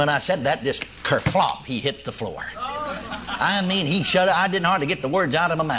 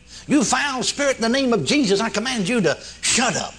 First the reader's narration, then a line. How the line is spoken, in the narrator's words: in desperation, I just cried out